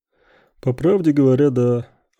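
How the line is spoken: Exhaled. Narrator (Russian): выдохнул Тарасов

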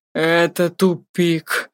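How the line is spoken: Despairing groan. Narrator (Russian): простонал Ирионус в отчаянии

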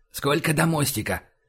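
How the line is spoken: Whispered question. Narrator (Russian): спросил шепотом Байкин

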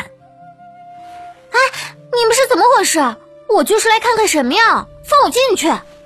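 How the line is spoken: Shouting. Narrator (Chinese): 院门口有人在大喊

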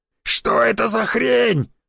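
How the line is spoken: Shouting over pouring rain. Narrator (Russian): закричал сквозь шум падающего ливня Дроба

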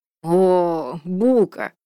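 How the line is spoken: Drawled, sly mocking. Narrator (Russian): протянул Вальдекрис с привычной ехидной улыбочкой

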